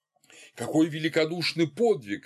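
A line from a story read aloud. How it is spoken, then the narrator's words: Sobbing group exclamation. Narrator (Russian): рыдая воскликнули некоторые члены совета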